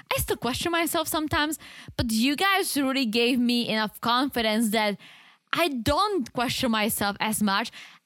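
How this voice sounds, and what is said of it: Non-native English accent. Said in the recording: “my accent, because English is not my first language ... butchering the English language”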